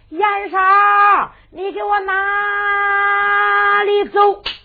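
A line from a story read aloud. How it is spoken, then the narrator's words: Shouted. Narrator (Chinese): 一喊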